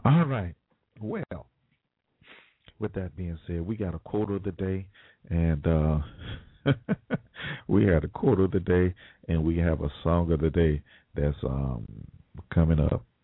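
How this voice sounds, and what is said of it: Hoarse, froggy voice. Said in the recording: “I apologize for my voice, y'all. It's just, allergies are just, man ... I was wondering if I would even have a voice today ... I'm sounding like a little froggy ... forgive my voice”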